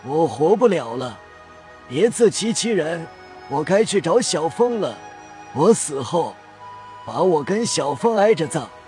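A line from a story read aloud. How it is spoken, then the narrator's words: Laughing, faint breathless. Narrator (Chinese): 顾掌柜又笑起来，气若游丝的答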